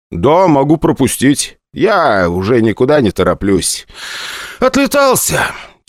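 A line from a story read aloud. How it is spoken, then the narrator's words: Heavy exhaled words. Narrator (Russian): тяжело выдохнул парень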